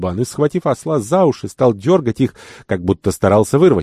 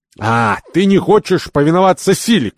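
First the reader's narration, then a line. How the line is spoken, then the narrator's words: Shout. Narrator (Russian): кричал Кирабан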